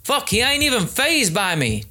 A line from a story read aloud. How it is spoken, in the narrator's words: Tan yelled louder